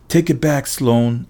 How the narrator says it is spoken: I shouted

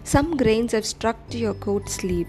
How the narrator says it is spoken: suddenly started laughing and told him

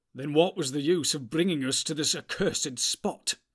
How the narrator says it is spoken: cried Boromir, glancing back with a shudder

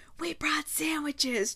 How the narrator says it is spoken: Juno whisper yelled

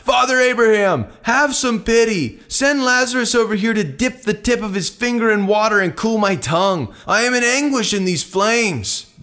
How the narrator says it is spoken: The rich man shouted

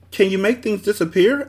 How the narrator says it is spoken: asked Milo excitedly

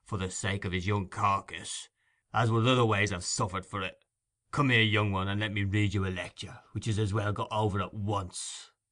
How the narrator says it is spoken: said Sikes, looking grimly

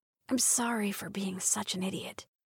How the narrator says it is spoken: Sid whispered

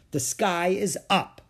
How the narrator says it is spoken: said Ramona firmly

